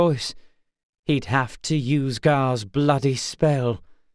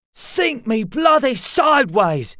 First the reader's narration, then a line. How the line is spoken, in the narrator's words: he shouted